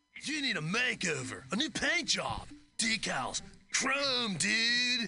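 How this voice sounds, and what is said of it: Laid-back hippie surfer voice. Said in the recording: “this guy's hippie voice, surfer voice.”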